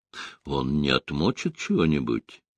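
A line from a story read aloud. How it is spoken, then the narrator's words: Quiet question. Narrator (Russian): тихо спросил особист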